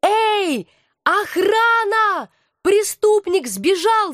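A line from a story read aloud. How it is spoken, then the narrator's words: Shouting while running. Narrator (Russian): закричала я, бросаясь вдогонку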